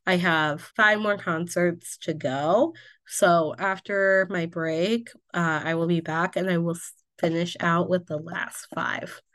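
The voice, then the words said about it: Strained, worn-out voice. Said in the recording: “I'm like kind of struggling to get through it right now ... my voice is a little shot”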